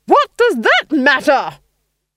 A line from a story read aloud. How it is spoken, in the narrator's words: she roared